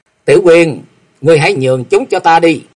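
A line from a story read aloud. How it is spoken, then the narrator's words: Loud laugh, then speaking. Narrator (Vietnamese): chàng cười to một tiếng rồi nói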